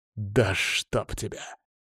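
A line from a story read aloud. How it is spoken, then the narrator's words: Growled. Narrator (Russian): прорычал Колян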